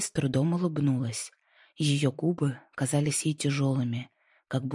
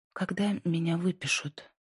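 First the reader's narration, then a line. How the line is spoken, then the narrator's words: Weak, quiet, slow. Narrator (Russian): С трудом проговорила Инди, ее голос звучал тихо и медленно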